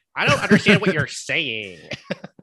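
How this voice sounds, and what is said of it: Australian imitating an American accent. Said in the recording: “I'm an American doing an imitation of an Australian doing an American accent when I do that accent.”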